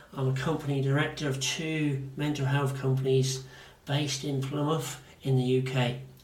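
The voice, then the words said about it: Devonshire (Janner) English accent. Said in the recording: “the Devonshire accent or the Janner in me”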